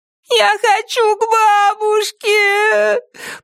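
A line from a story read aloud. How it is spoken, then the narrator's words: Sobbing. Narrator (Russian): прорыдала Молли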